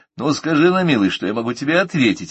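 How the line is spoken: Laughing. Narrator (Russian): рассмеялся я

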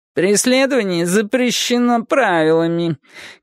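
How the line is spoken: Whiny tinny speaker voice. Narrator (Russian): капризным жестяным голосом сообщил динамик

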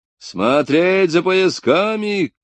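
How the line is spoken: Shout. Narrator (Russian): крикнул предохранительный первого класса Сплин

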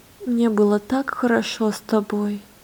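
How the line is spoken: Tender whisper. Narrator (Russian): нежно прошептала Лена

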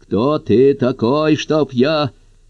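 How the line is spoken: Growling. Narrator (Russian): Она зарычала

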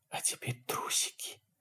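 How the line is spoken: Whispered. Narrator (Russian): прошептала она ножом

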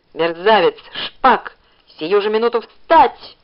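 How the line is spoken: Yell. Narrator (Russian): заорал он

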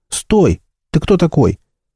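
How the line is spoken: Goblin shouting after someone. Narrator (Russian): Гоблин крикнул вслед убегающему человеку

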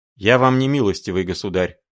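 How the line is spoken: Sharp declaration. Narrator (Russian): резко заявил блондин

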